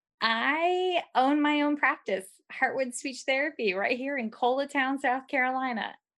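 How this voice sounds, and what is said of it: Southern twang accent. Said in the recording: “let my little twang roll right out”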